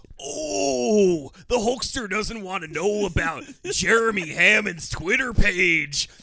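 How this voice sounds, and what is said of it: Intense pro-wrestler promo voice. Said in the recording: “you got to plug this like your Macho Man ... being so intense about the voice today ... You got to cut a promo ... We love doing the voice”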